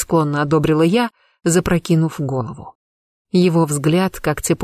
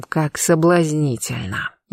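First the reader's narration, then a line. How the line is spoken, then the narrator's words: Almost purring. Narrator (Russian): едва не мурлыкал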